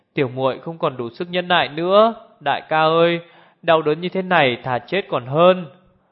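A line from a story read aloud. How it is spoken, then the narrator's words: Moaning in pain. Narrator (Vietnamese): Liễu Vô Mi rên rỉ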